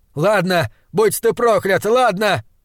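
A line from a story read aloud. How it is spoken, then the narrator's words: Yelling. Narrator (Russian): орал он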